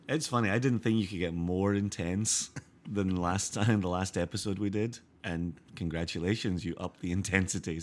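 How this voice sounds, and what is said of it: Hoarse, tired-sounding voice. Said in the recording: “really sleepy, super tired, hoarse voice”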